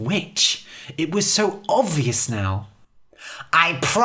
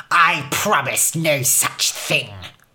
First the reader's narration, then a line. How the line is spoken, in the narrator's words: Her voice was nastier, crueler than ever before